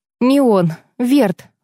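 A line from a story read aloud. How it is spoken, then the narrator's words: Breathed out. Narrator (Russian): выдохнула я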